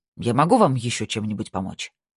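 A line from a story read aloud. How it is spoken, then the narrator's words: Slightly irritated question. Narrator (Russian): немного раздраженно спросил Гульбрандсен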